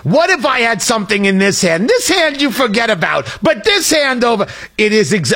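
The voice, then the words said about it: Gilbert Gottfried impression. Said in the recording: “this is Gilbert Gottfried in Beverly Hills Cop ... not a bad impression ... No, that's pretty good, actually.”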